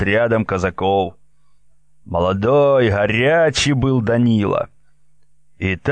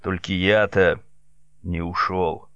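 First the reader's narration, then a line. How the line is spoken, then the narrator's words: Quiet rapid patter. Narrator (Russian): тихо скороговоркой добавил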